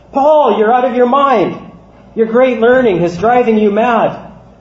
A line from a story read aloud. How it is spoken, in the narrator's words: Festus said in a loud voice